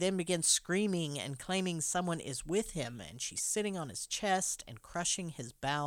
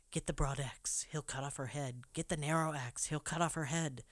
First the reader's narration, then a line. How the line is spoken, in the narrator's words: Caleb muttering to himself